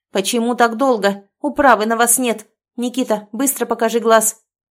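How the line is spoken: Barking woman. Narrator (Russian): рявкнула надо мной женщина

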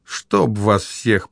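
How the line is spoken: Grumbled. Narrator (Russian): проворчал Гектор, увидев предупреждение объезд ремонта дороги

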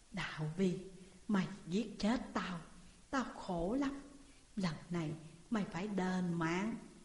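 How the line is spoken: Faint whisper in ear. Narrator (Vietnamese): một tiếng nói khe khẽ ở bên tai

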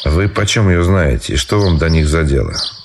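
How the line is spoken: Dry. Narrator (Russian): сухо заметил Райский

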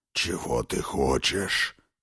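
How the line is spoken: Growling. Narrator (Russian): рыкнул он

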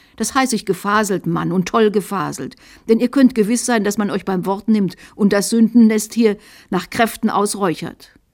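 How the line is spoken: Shrill angry little voice. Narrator (German): Der Bischof fixierte den unglücklichen Molitor erbost und rief mit schrillem Stimmchen

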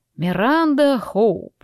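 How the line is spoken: Mocking drawl. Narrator (Russian): насмешливо протянул он

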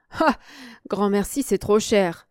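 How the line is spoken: Laughing reply. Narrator (French): répondit Serge en riant

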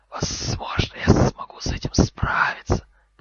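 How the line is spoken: Hissing. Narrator (Russian): прошипел Гарри

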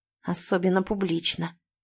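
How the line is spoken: Very quiet, seriously threatening. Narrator (Russian): говорит очень тихо, но уже с серьезной угрозой в голосе

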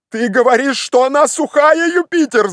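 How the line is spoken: Broken, shouting voice. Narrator (Russian): закричал Легран прерывающимся голосом

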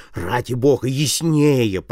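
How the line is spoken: Groaning. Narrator (Russian): простонал Бирн

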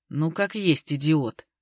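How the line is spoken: Sighing. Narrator (Russian): Вячеслав вздохнул

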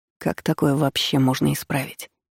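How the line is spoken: Muttered. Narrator (Russian): пробормотал он

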